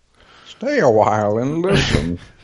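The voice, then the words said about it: Video game character voice. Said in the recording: “Deckard Cain ... Where's his voice is coming from ... from Diablo”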